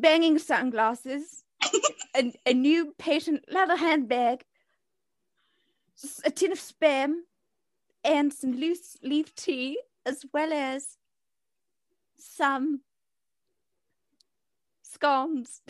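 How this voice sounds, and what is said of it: Put-on accent, done well. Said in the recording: “your accent is way better than mine”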